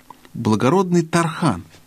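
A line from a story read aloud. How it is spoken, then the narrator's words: Tender, cat speaking. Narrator (Russian): сказал кот нежно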